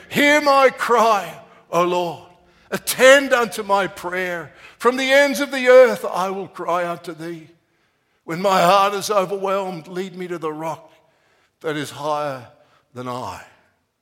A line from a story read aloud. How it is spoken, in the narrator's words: he cried in his prayer